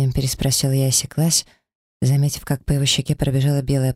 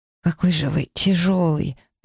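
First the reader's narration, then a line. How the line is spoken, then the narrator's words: Barely audible wheeze. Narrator (Russian): прохрипела едва слышно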